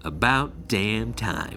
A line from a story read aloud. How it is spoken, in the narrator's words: he said